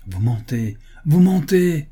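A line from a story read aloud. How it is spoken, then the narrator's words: Shouted. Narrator (French): cria la comtesse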